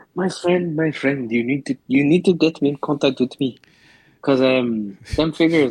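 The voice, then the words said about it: Put-on South African accent. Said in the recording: “Why did you sound all Russian all of a sudden? ... what was that fucking accent? ... So, it's African, it is. ... Oh, South African. ... You're going very Africans.”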